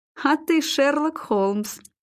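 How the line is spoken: Forced through laughter. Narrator (Russian): выдавил конюх сквозь смех

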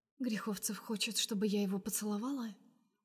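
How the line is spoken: Quiet smirk. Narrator (Russian): усмехается Настя тихо

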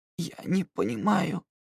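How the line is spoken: Hoarse, into ear. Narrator (Russian): прохрипел Сонар ему на ухо

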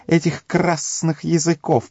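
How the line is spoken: Hissing. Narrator (Russian): прошипел Горлум

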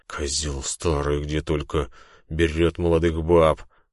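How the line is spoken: Hissing infected big man. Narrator (Russian): прошипел зараженный здоровяк

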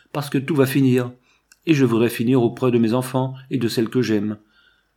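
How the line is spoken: Pleading tone. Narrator (French): reprit du ton d'un suppliant

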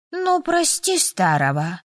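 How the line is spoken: Dragon's theatrical mournful sigh. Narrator (Russian): Горестно напоказ вздохнул дракон

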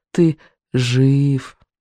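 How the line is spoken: Weak, slurred wheeze. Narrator (Russian): Беззубик прохрипел очень слабо и невнятно

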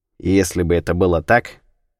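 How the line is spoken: Dry reply. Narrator (Russian): сухо ответил Кунсанг

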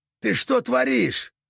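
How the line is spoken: Barking. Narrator (Russian): рявкнул Кек

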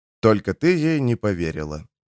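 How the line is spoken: Quiet. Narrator (Russian): тихо проговорил док

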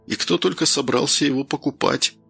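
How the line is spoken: Uneasy mutter. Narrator (Russian): пробормотал Данил, борясь с острым желанием побыстрее выскочить из этого дома на улицу

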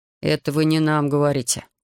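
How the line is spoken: Grumbling. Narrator (Russian): проворчал старшина

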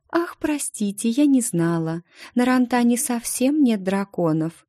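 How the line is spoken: Cooing. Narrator (Russian): проворковала она

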